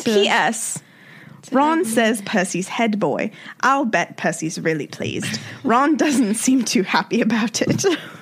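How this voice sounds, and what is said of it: Put-on British accent, not great. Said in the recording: “I used to always think that I could do like a good British accent, and I don't think I can. ... your accent ... Tell me ways I can improve my British accent.”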